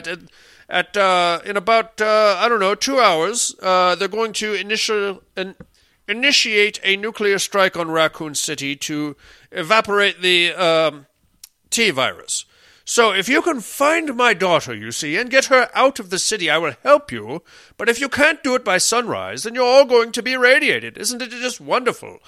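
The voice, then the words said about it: Poor imitation of another person's voice. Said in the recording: “terrible Jared Harris impersonation ... My own worst impressions of everybody”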